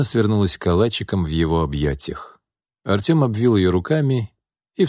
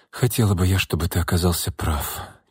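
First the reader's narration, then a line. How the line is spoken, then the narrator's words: Quiet. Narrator (Russian): тихо произнесла Настя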